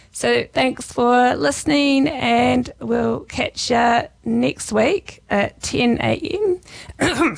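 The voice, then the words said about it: Hoarse, strained, fading voice. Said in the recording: “losing my voice.”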